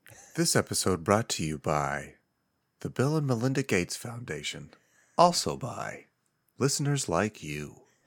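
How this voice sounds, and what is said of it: Soft, sleepy public-radio announcer voice. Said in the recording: “in my NPR voice ... I'm falling asleep right now.”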